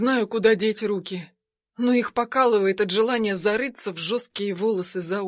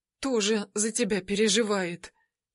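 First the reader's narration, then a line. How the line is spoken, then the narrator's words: Quiet. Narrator (Russian): тихо сообщаю я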